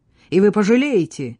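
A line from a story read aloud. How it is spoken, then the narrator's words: Shouting. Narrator (Russian): крикнула Катриона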